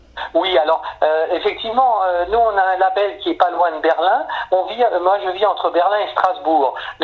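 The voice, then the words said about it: Strasbourg Alsatian French accent. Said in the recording (French): “ton petit accent aussi nous indique que tu viens de là ... à Strasbourg, on a un accent particulier ... vous venez de Suisse”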